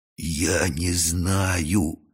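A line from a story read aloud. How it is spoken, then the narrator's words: Terrible whisper. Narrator (Russian): страшным шепотом сказал майор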